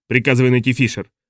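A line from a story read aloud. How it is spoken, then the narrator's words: Angry hoarse bark. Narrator (Russian): рявкнул Найтингейл, лицо которого уже пошло пятнами от злости и непрестанного крика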